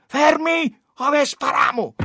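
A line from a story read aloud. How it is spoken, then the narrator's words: Shrill shout. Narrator (Italian): uno uscito con l'accuso strillò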